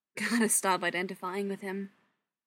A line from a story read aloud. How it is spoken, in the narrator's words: she mutters to herself